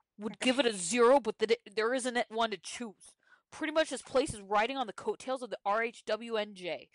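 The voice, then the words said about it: Put-on New Jersey accent. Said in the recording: “Can you read it in a New Jersey accent? ... I'll try my best to do a Caroline Manzo.”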